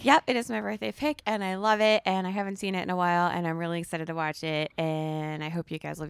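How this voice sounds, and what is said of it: Hoarse, partly lost voice. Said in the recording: “your voice is a little bit gone from the choir show”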